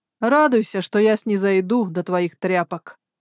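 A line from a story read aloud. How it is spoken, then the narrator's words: Scornful warrior's snort. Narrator (Russian): Хмыкнул воин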